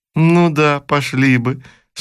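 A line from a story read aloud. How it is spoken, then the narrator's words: Laughing. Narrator (Russian): снова засмеялась Анна Петровна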